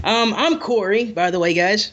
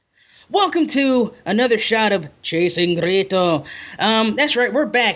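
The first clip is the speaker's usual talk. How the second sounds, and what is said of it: Attempted Scottish accent. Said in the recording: “Did you just try to do a Scottish accent there?”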